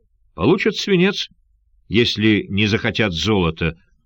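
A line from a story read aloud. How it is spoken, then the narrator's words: Cold reply. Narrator (Russian): холодно ответил Сандакан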